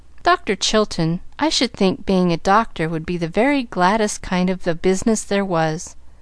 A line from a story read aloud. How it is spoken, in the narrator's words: say in a timid voice